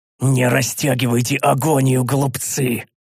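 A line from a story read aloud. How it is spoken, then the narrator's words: Furious roar. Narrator (Russian): прорычал, свирепея от упорности их сопротивления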